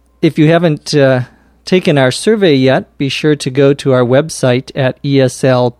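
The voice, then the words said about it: Sick, slightly strained voice. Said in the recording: “I'm feeling a little sick today. My throat has been hurting me... my voice sounds a little funny today, funnier than it normally sounds”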